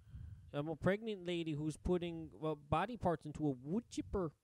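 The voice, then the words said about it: Put-on Minnesota accent. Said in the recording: “like the movie Fargo ... it's more of like your O's ... That's Minnesota.”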